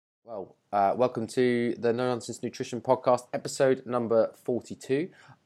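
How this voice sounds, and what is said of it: Voice sounds sick with a cold. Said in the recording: “I'm a bit dull sick, so I've got a cold, which is not ideal for when you're trying to record audio.”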